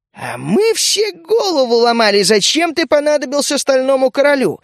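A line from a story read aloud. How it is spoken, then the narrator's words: Exclaimed by goblin. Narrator (Russian): воскликнул гоблин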